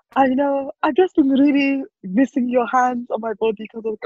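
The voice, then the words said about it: Put-on Eastern European woman's accent. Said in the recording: “What accent is this, please? ... I don't turn into like Eastern European woman.”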